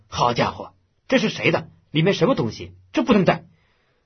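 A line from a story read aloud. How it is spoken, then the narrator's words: Rapid-fire angry speech. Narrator (Chinese): 侯营长放机关枪似的说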